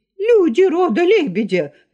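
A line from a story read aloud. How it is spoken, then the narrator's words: Shrill shout. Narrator (Russian): закричал он визгливо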